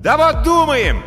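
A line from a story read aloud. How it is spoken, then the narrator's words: Yelling. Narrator (Russian): заорал Тиберий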